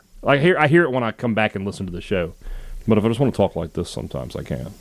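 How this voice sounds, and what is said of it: Southern American accent. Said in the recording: “Try and speak without a Southern accent ... I don't hear my accent very much. I know it's there.”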